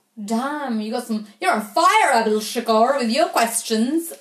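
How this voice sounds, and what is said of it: Confused, unidentifiable put-on accent. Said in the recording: “I don't know what accent that was. Slightly confused one.”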